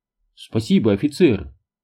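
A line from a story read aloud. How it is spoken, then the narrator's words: Laughing. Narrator (Russian): Нейл засмеялся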